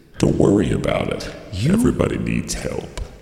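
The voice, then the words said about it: Deep, sexy put-on voice. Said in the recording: “You gotta have a sexy voice ... I'm going deep.”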